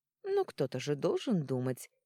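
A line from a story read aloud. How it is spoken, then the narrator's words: Cheerful remark. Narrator (Russian): весело заметила Льесса Эрика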